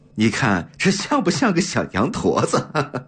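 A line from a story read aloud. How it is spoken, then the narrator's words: Chuckling. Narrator (Chinese): 袁继耀嘿嘿笑着说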